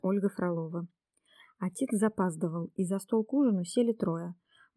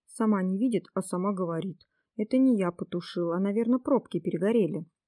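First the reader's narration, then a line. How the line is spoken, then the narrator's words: Offended, angry reply. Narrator (Russian): Николашка обиделся и сердито ответил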